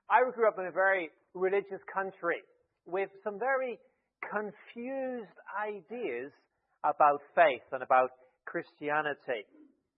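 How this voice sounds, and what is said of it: Irish accent. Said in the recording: “I grew up in Ireland. Maybe you can slightly tell from the accent.”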